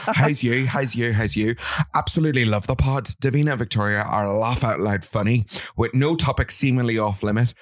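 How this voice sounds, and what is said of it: Put-on Northern Irish accent. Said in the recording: “I'm going to try and read this in a Northern accent”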